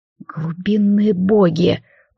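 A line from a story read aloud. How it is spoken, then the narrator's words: Hissed in fear. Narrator (Russian): прошипел Алистар, чувствуя, как по телу бежит противная дрожь страха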